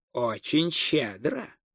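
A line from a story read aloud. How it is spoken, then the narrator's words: Quiet reply, dwarf jeweler. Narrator (Russian): негромко отозвался ювелир, который сразу учуял выгодную сделку, поскольку происходил из рода гномов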